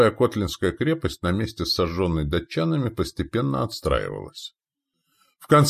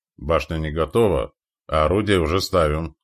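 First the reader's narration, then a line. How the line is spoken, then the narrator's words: Grumbling. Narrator (Russian): проворчал десятник Колгуй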